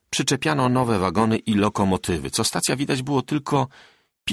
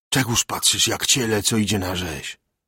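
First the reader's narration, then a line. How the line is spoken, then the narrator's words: Whispered. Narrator (Polish): szeptał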